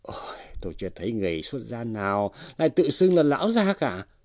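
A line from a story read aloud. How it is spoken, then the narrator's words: Dry scornful laugh. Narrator (Vietnamese): Chủ quán cười nhạt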